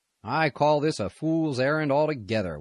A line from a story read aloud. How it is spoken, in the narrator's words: said in a grumbling tone